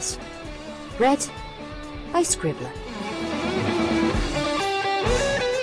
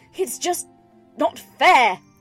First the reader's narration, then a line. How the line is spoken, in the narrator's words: she exclaimed, burying her face in her hooves